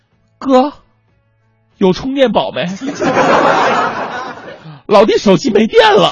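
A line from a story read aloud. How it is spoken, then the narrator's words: Smiling reply. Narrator (Chinese): 面带微笑，回了我一句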